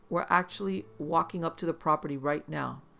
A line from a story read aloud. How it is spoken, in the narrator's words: she said in an excited tone